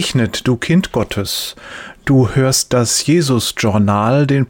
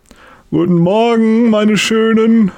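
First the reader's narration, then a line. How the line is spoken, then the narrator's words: Loud call. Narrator (German): ruft laut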